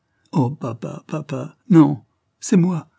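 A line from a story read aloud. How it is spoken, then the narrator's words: Exclaimed. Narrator (French): s'écria Edith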